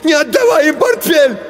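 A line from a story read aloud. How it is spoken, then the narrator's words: Shouting. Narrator (Russian): закричал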